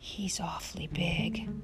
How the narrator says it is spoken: Laura whispered

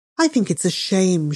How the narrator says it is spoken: she said

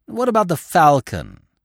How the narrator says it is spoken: she exclaimed

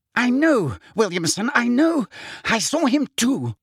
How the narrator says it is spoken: gibbered Fudge, was gasping as though he had just run miles

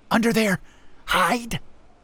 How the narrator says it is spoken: she hissed

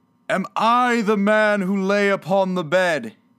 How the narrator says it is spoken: he cried upon his knees

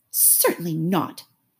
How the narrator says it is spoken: said Alice indignantly

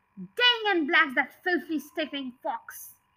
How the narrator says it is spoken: he said

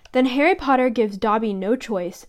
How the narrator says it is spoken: said the elf sadly

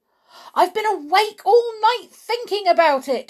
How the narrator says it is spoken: he cried

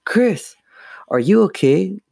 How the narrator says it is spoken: Lindsay cried

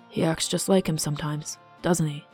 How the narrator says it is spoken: Matthias murmured

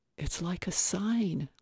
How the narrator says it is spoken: Lillian whispered

